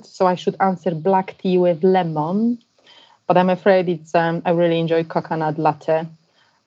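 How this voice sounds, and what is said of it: Polish-accented English. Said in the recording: “proud to be Polish with my rather colourful, unpolished accent”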